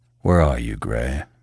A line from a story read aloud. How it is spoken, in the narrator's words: he mumbled under his breath